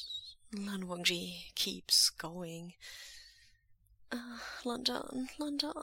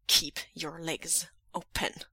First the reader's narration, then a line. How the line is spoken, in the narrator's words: Lan Wangji growls